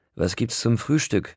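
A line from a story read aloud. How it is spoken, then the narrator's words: Slightly sarcastic question. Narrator (German): fragte ich ein wenig sarkastisch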